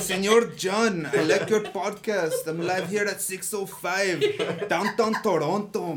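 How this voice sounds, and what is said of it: Put-on Mexican accent. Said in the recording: “your greasy Mexican impression”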